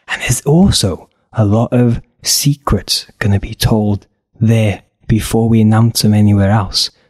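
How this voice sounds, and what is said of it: Whispering. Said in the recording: “that's why I'm whispering, because secrets and whispers.”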